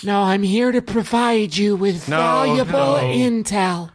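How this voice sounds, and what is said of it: Lowered gruff voice, Harry Caray-like. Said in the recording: “talk a little lower, darling? ... Butch it up a bit. ... Oh, God, that's worse. Worse. ... Like Will Ferrell's impersonation of Harry Carey fell down a flight of stairs. ... And landed on Grandpa Simpson.”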